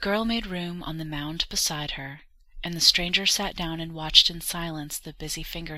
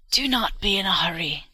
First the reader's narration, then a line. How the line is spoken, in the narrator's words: croaked the old woman